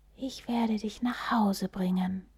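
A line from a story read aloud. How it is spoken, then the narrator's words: Whispered. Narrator (German): schien es zu flüstern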